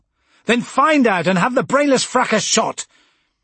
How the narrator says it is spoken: my voice had risen

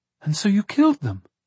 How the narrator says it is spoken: Avon exclaimed

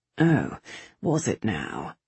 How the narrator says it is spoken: Singh muttered

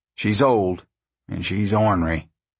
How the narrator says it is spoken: he said gravely

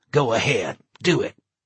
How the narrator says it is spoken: Larry said coldly

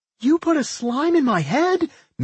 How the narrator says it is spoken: Millie screamed in horror

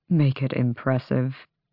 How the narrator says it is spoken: he muttered

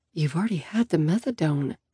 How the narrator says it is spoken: I murmur

